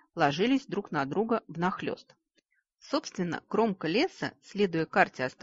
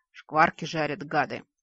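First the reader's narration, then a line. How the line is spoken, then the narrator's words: Groaning stomach. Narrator (Russian): простонал желудок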